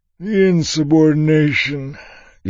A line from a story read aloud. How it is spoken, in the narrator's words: Yimt said, yawning